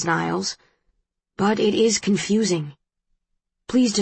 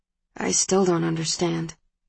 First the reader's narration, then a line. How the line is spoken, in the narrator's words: he says softly